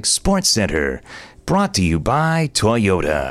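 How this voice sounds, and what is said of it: Sports announcer voiceover impression. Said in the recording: “I'll match him with my ESPN Sports Center voiceover guy”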